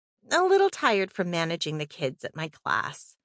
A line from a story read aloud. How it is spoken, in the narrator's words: sighed and said